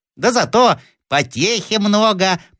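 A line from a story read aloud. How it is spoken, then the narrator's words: Thin squeaky voice. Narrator (Russian): пропищал кто-то тоненьким голоском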